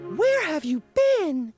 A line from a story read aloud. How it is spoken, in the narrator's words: asked the fish excitedly